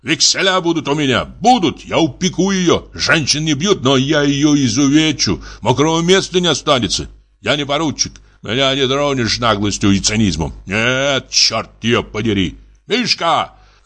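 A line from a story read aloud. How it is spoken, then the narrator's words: Shouting. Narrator (Russian): закричал он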